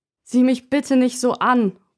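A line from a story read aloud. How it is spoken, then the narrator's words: Sudden call. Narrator (German): ruft mein Vater plötzlich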